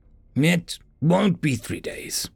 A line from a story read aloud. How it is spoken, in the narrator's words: Zoe said in a firm voice